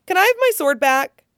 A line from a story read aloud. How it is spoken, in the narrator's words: She splutters, unable to comprehend that he has even asked